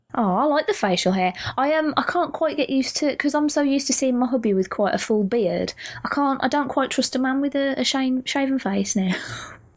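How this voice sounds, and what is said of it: British accent. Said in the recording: “I love your accent. ... I'm going to marry a UK girl someday again”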